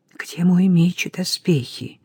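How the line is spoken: Whispered. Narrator (Russian): прошептал

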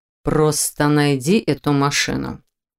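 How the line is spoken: Through gritted teeth. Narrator (Russian): сквозь зубы проговорил Виктор

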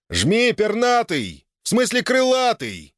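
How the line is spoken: Yelling. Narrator (Russian): заорал Граут

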